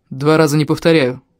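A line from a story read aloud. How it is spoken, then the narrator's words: Cold. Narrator (Russian): холодно ответил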